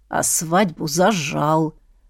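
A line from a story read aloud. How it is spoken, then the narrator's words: Offended mumble. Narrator (Russian): обиженно пробормотал третий, новый голос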